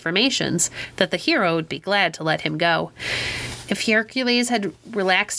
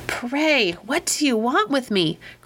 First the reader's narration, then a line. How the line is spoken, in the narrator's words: cried the old one, as soon as he could take breath